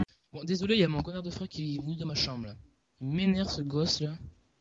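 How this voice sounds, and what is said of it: Toulouse French accent. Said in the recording (French): “on sent l'accent de Toulouse”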